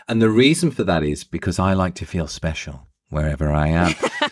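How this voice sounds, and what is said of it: English accent. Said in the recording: “I've gotten more than one free coffee because of this accent when I'm in the States ... to emphasize my Englishness to an American person”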